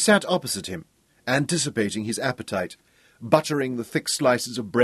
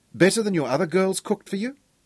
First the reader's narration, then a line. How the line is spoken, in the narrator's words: she demanded playfully